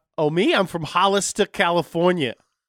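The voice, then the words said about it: Put-on New Jersey-sounding accent. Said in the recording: “You sound like you're from New Jersey. ... Nah, this is my Hollis to California accent ... Now you sound like Christopher Walken.”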